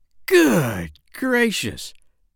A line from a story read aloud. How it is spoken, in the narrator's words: cried the doctor